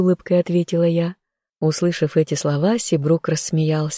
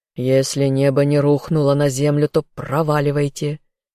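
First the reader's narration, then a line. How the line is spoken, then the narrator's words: Growled. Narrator (Russian): прорычал мой дракон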